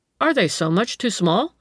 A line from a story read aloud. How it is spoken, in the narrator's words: asked the dealer in an innocent tone